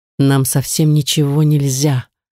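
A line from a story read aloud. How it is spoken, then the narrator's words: Hoarse, barely audible. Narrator (Russian): прохрипел почти неслышно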